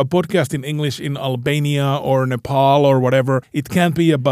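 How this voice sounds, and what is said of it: Usual voice. Nothing is said of it.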